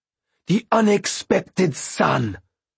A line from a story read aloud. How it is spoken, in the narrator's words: she snarled at them